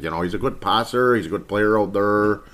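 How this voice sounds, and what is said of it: Put-on Canadian accent. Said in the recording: “You know, you want to talk like Canadian accent.”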